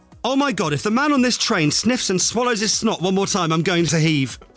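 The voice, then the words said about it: Angry voice reading. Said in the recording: “read this one in your angriest voice ... Angry voice.”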